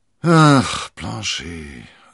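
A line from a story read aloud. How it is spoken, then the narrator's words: Sighing. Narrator (German): seufzte D'Artagnan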